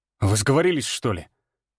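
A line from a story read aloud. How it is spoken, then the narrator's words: Sharp rebuke. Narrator (Russian): Резко одернул я Степу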